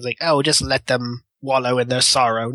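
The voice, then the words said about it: Villain character voice. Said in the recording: “is that accent? ... That was my bad guy accent.”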